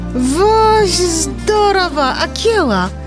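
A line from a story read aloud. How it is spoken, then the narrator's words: Exclaimed. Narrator (Belarusian): усклікнуў Моглі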